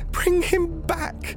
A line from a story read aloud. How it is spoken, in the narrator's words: cried the old woman